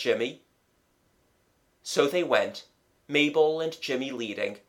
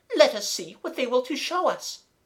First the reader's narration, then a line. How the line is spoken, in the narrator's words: cried Mademoiselle